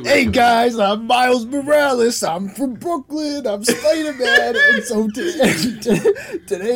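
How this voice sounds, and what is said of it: Put-on Brooklyn accent. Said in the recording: “Brooklyn accent. No one... Do a Brooklyn accent.”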